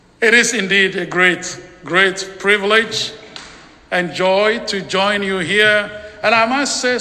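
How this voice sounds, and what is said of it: Strong foreign accent in English. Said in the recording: “it is your opportunity to practice on accents... listen to something that sounds like English”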